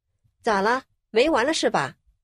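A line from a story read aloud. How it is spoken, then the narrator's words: Stern scolding. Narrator (Chinese): 厉声呵斥道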